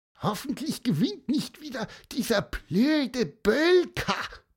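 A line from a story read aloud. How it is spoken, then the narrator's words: Squeaked. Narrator (German): piepste Pieper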